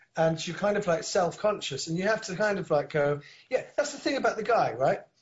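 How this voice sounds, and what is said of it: Soft northern English accent. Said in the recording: “I've adopted their accent ... Absolutely, you have ... quite a soft northern accent. It's quite Alan Bennett-ish.”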